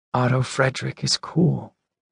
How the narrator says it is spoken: whispers Darius

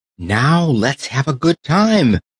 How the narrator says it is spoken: cried the tin soldier

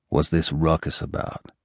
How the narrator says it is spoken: Erdemis muttered to his captive

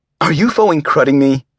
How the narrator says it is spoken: I snapped

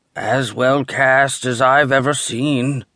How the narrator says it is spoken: he said grimly

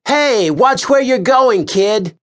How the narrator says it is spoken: Tavery yelled

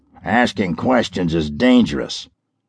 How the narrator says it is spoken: He growled

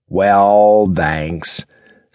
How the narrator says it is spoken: Stark mocked

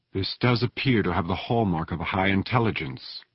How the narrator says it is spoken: she said softly

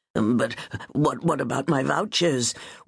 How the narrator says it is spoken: Winterbourne asked in a quivering voice

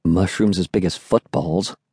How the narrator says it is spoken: murmured

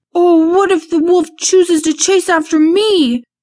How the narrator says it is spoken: Drake screamed out

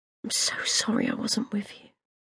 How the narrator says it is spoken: whispered

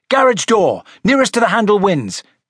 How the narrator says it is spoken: cried Siri

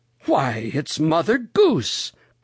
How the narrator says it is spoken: cried Uncle Wiggily Longears

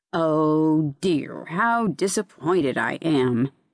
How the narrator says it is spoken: murmured the zoophyte

